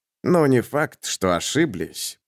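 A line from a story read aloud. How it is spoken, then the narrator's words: Resentful grumble. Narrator (Russian): проворчал Берг, получивший на глорию меньше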